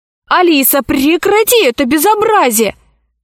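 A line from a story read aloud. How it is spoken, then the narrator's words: Shouting. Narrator (Russian): закричал Пашка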